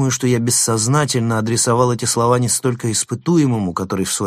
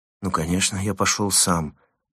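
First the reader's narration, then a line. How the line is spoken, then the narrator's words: Embarrassed mumble. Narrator (Russian): смущенно пробормотал номер 135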